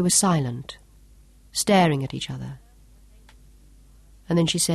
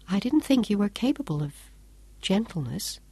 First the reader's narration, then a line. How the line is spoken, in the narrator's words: she went on softly